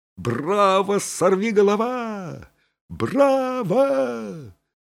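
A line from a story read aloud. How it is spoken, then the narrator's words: Proud shout. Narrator (Russian): закричал просиявший от гордости Фанфан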